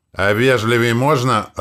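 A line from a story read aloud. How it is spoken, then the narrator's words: Growl. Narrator (Russian): рыкнул на Вельмара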